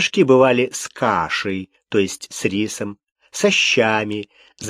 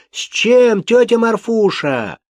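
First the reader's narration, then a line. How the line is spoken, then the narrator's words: Shouting while running. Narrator (Russian): кричали на ходу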